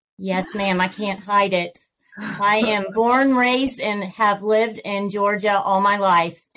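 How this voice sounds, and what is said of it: Southern American accent. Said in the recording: “a little bit of a Southern accent”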